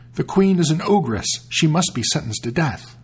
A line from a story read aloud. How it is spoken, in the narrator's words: everyone cried out openly